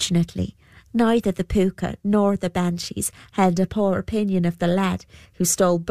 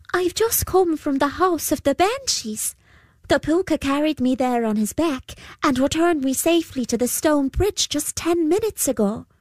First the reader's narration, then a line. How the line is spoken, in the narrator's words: he called out